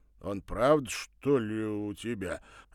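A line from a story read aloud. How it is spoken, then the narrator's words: Stunned exclamation. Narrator (Russian): ошарашенно воскликнул зам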